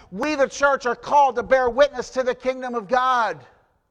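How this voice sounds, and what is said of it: Raised, emphatic preaching voice. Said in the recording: “why are you raising your voice? Why are you emphasizing this so much?”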